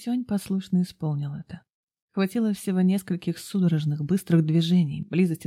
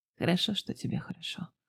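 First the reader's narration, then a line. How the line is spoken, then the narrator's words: Mutter. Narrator (Russian): пробормотал Хэсюань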